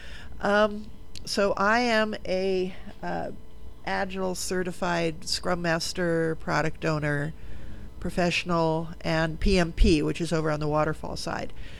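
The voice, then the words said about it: Hoarse, nearly lost voice. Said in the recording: “my voice is almost gone”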